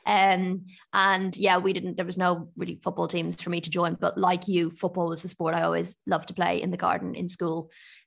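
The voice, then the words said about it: Irish accent. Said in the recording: “I grew up in Ireland, if you can't tell from my accent”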